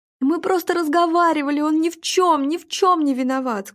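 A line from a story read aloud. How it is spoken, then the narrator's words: Sobbing, defensive. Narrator (Russian): Сквозь рыдание оправдывалась Вера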